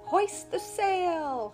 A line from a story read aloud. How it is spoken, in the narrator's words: cried Jerry